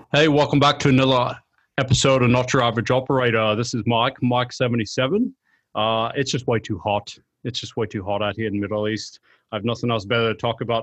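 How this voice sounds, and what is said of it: Poor put-on accent. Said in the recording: “That was terrible... That was worse. Okay. Getting worse. Your brain accent's falling apart.”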